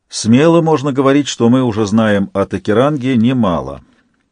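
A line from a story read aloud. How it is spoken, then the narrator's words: Even voice. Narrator (Russian): начал ровным голосом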